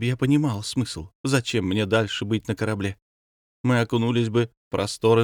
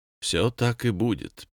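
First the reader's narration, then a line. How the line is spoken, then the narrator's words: Sad. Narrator (Russian): печально сказал Павел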